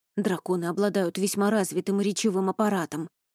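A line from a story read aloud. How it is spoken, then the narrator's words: Flustered muttering. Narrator (Russian): сбивчиво бормотал Рони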